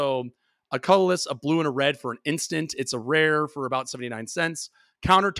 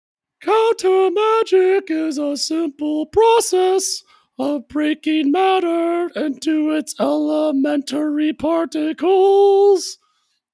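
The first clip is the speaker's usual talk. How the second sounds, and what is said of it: High falsetto voice. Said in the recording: “sings in a falsetto. So I'm about to throw my voice out here”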